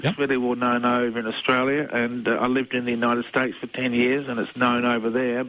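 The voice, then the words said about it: Australian accent. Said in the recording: “I'm from Australia, as you can tell by the accent.”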